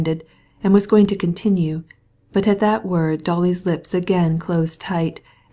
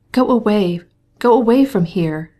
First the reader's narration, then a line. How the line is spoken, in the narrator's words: she cried still more impetuously